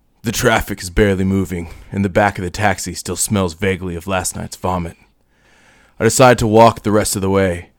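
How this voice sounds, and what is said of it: Hard-boiled noir narrator voice. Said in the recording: “I will read them to you in my noir voice.”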